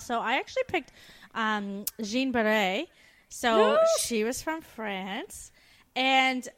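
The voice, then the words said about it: Put-on French accent. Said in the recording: “I loved your French accent there”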